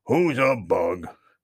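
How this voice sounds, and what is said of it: Funny, cross character voice. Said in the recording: “asked a funny voice, and it sounded rather cross”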